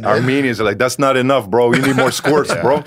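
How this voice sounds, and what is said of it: Put-on Armenian accent. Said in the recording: “I don't know what accent that is. ... That's Armenian, bro. ... It's very Latino. ... That's his only accent.”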